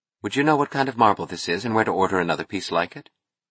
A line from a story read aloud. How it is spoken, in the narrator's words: She asked calmly